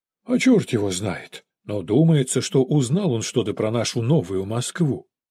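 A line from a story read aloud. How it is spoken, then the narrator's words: Father sighing. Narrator (Russian): вздохнул отец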